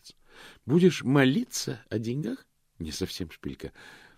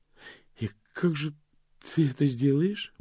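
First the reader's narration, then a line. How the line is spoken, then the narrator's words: Strained, forced out. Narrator (Russian): выдавила она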